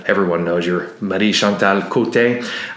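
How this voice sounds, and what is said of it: Attempted French accent. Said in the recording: “I tried to say that with my best French accent”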